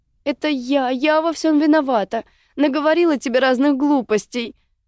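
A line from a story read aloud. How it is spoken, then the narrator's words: Whimpering. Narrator (Russian): хныкала Мика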